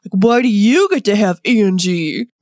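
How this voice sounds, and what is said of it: Imitates a cartoon character's voice. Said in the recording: “That was my Broadway impression. ... Pretty solid, yeah.”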